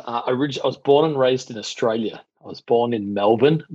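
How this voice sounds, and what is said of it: Australian accent. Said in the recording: “as most people can probably tell from your accent, you are not originally from New York”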